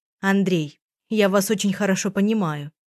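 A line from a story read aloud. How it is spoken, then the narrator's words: Plain. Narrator (Russian): сказала она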